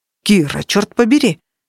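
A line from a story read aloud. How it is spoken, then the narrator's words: Exclaiming. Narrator (Russian): воскликнул он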